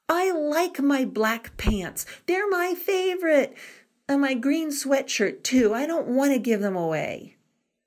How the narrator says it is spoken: Danny cried

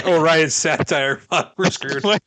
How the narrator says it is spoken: laughed, then I was like

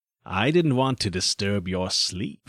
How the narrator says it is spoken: he said coldly

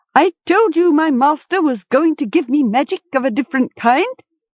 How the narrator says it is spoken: Zamul cried

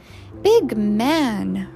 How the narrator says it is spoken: repeated the child happily

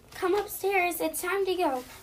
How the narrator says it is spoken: my mom yelled

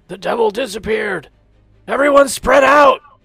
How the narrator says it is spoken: the Haku's gonna yell

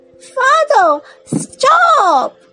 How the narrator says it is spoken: The princes shouted

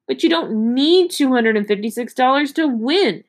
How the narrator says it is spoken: she shouted

